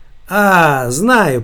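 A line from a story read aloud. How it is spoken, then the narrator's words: Drawling. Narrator (Russian): протянула Настя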